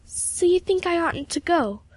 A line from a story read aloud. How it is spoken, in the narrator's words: said Emily anxiously